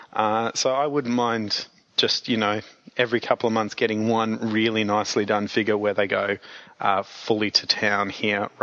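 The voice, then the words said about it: Slightly croaky voice. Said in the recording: “I sound a little croaky ... getting over a bit of a vocal cord injury”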